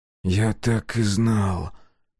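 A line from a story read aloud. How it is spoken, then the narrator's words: Whispered. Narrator (Russian): прошептал Коленки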